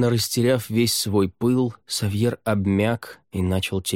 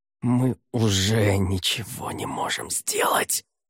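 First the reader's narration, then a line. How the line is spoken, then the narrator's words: Breathed out. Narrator (Russian): выдохнул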